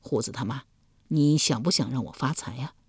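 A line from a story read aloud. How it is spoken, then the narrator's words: Soft gentle question. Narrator (Chinese): 易牙 柔声问道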